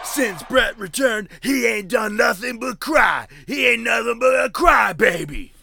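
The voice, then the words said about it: Imitates another person's voice. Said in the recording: “my best Stone Cold impression”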